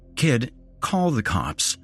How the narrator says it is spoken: I said very calmly

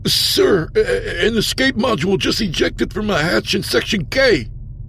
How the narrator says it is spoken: Aldo sputtered

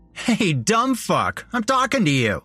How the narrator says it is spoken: Jeremy said with a laugh

